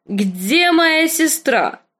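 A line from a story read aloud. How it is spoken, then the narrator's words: Drunken shout. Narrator (Russian): крикнул визырь с голосом, полным вина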